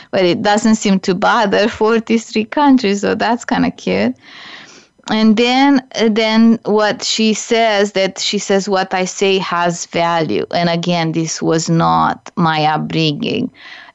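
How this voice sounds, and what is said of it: Non-native English accent. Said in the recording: “English is not my first language. So I do speak English funny in a sense ... my accent”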